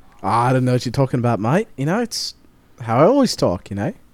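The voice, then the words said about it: Put-on Australian accent. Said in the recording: “you changed your accent. ... this season ... Australian”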